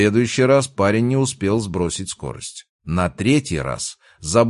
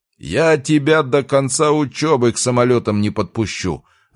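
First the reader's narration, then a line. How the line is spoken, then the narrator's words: Yelling, releasing pent-up tension. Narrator (Russian): орал Михайлович, выплескивая скопившееся напряжение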